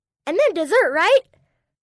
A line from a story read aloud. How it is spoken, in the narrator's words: Matt blurts out